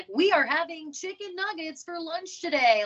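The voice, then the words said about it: Mock newscaster voice. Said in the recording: “doing the news voice.”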